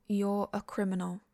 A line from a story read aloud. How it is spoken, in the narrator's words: she says flatly